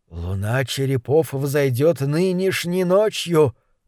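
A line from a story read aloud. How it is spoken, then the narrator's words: Prisoner muttering. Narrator (Russian): пробормотал узник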